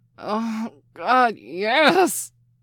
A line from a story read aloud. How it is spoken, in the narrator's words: he gasped over and over again